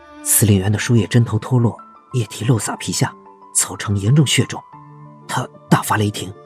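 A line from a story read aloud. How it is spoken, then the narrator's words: Quiet report. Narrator (Chinese): 钟明小声报告说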